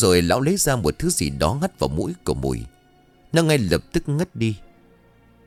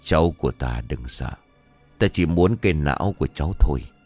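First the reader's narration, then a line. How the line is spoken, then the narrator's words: Old sorcerer's deep, sly voice. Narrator (Vietnamese): lão thầy pháp mỉm cười ẩn ý, miệng ồm ồm bảo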